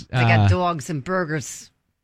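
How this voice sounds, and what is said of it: Put-on Chicago accent. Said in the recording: “Is that your Chicago accent? ... Maybe a little.”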